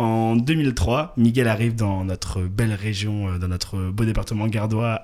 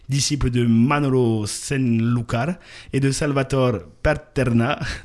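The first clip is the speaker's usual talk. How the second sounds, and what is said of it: French speaker's slight put-on Spanish accent. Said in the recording (French): “Désolé pour mon accent, ouais, vraiment j'essaie de mettre un petit accent ... j'ai envie de mettre un peu de, voilà, de côté espagnol”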